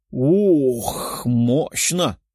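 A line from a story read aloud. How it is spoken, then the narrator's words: Muttered. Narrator (Russian): пробормотала Лиза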